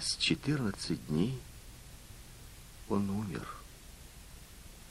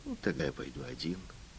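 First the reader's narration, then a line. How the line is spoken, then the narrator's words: Plain. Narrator (Russian): сказал он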